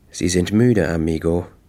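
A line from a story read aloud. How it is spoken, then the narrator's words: Gentle. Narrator (German): sagte sanft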